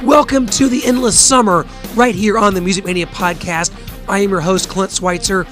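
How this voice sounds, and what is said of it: Hoarse, weakened voice. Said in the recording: “I've somehow lost my voice, somehow gotten a cold, somehow taken ill”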